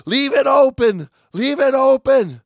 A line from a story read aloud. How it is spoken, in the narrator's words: Pharmacist's mate, Raymond O'Hara, still 10 feet away from the door, screamed